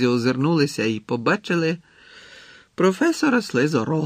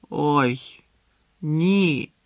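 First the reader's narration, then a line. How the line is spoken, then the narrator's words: Groaning. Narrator (Ukrainian): простогнав Гаррі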